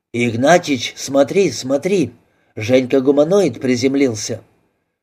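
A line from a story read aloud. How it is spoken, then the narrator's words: Sudden whisper. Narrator (Russian): Торчков неожиданно зашептал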